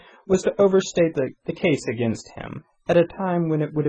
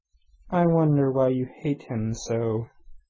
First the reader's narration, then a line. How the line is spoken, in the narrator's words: he said softly